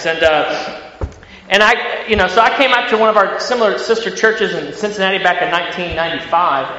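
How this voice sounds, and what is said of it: American Midwestern country accent. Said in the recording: “That's not a southern accent. That's a country accent you hear coming from me as far as American accents.”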